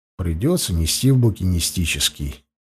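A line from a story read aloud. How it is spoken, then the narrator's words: Sigh, visitor. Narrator (Russian): вздохнул посетитель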